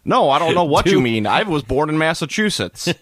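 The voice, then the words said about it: Imitates another person's voice. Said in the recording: “my Benedict Cumberbatch impression of the this is just going to be the accent I use throughout the entire podcast.”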